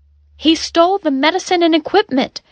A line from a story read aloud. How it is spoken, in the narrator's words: Pandora cried